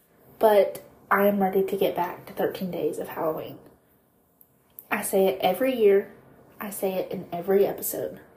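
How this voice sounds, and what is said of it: Sick, sore-throated voice. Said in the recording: “as you can probably still tell, my voice is not normal. I still have a sore throat. I've got like a yucky mucus situation going on”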